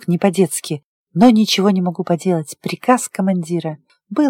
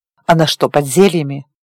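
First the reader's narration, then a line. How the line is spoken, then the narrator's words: Stern question. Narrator (Russian): строго спросил он Диего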